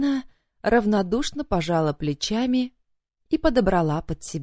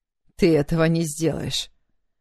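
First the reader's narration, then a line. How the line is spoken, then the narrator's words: Angry growl, man. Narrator (Russian): гневно прорычал мужчина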